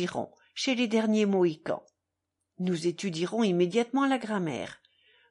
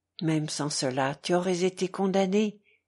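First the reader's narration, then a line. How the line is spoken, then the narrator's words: Sighing. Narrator (French): dit Alyosha en soupirant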